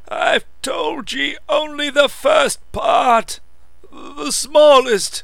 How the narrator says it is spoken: croaked the old man

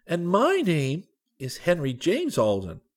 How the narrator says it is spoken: cried Henry

